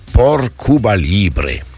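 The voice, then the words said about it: Put-on Spanish accent. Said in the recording (French): “avec un bon accent espagnol”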